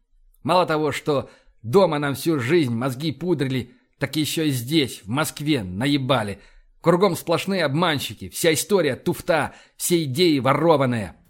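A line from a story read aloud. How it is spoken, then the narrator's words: Melancholy sigh. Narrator (Russian): Боровский тоскливо вздохнул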